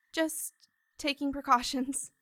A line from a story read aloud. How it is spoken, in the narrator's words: she stammered